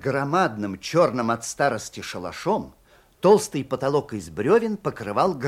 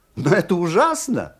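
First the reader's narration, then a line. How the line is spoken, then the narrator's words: Laughing. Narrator (Russian): сказал он, смеясь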